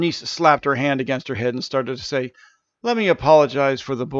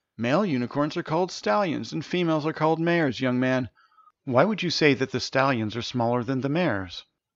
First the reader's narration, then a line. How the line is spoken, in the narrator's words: the unicorn gently said